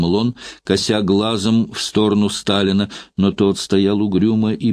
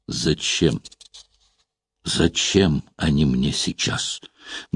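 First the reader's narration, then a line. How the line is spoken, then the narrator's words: Dull, absent-minded. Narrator (Russian): глухо отозвался, отвечая на какие-то свои мысли, Сталин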